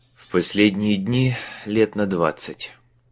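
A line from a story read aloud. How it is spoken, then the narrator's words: Gloomy answer. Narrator (Russian): мрачно ответил Майлз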